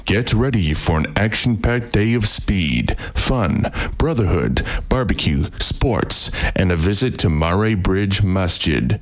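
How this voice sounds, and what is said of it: Announcer-style radio voice. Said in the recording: “I'll read this in my radio voice now.”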